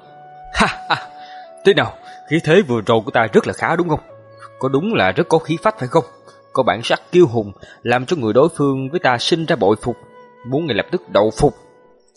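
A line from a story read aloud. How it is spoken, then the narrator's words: Loud mocking laughter. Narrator (Vietnamese): Lệ Phi Vũ bộ mặt cười cợt lại xuất hiện, hắn hắc hắc cười lớn nói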